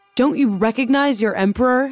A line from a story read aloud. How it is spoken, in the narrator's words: he shouted at the guards